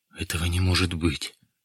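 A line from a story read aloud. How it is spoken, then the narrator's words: Unsteady voice. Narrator (Russian): сказал он нетвердым голосом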